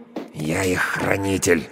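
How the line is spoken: Quiet growl. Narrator (Russian): рычу тихо, чтобы не разбудить

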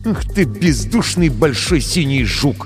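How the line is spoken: Through gritted teeth. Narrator (Russian): процедил Крисмас сквозь зубы

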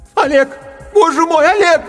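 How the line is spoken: Distant shout. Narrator (Russian): кричала откуда-то издалека из другой галактики Галка

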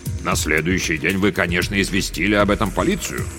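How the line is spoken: Stern question. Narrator (Russian): строгим тоном вопросил Макнайт

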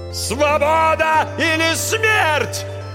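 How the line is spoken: Yelling battle cry. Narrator (Russian): завопил учитель

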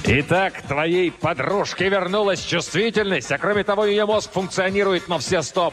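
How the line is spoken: Roaring. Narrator (Russian): проревел Кризераст ужасный

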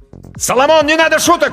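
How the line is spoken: Shout. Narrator (Russian): крикнул Данька

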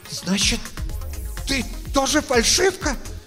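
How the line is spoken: Wheezing, strained. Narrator (Russian): с сипением выдавливает Рамона, на которую жалко смотреть

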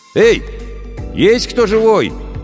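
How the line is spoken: Shouting. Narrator (Russian): крикнул Сашка

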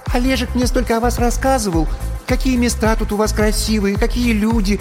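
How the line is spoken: High sharp birdlike voice. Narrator (Russian): начала черненькая Яна высоким и резким, каким-то птичьим голосом

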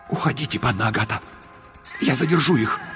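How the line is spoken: Brave whisper. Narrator (Russian): Кразельчикюс мужественным шепотом сказал

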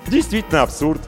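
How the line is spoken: Cheerful. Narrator (Russian): весело кивнул Емельян

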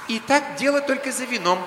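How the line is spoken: Solemn announcement. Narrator (Russian): торжественно объявила Малка

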